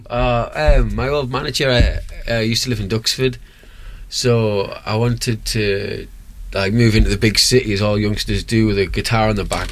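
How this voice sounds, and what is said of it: Noticeable regional accent. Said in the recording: “With that accent”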